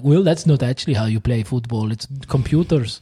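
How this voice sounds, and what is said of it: Decent put-on Scandinavian accent. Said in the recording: “That was not bad. That wasn't a bad Scandi accent.”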